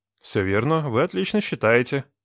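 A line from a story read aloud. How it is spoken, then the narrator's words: Dry remark. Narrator (Russian): сухо заметил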